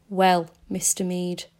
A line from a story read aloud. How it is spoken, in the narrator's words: it said